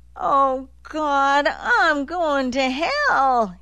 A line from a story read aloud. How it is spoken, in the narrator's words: he wailed